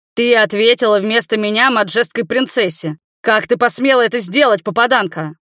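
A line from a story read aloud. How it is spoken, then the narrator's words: Growling. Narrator (Russian): рыкнул он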